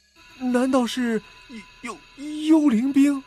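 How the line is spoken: Stammering question. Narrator (Chinese): 结结巴巴的问霍顿

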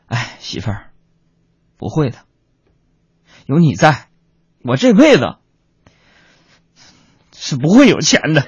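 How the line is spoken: Sighing. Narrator (Chinese): 我就叹了口气说

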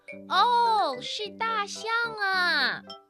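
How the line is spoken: Shouting in sudden realization. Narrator (Chinese): 玛丽马上就明白了，她大喊起来

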